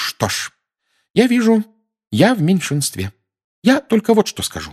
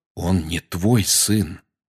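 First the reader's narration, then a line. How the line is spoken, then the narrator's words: Quiet. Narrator (Russian): тихо сказал Сириус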